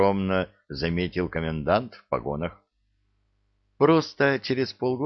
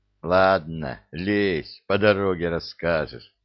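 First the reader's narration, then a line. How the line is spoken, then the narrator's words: Laughing. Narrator (Russian): рассмеялся Михаил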